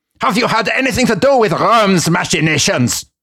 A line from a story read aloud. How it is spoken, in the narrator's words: Hitler shouts at each one